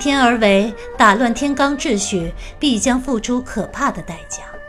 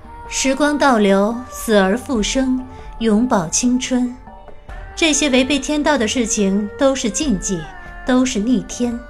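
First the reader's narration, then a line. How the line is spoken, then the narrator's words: Calm, indifferent. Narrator (Chinese): 白姬淡淡道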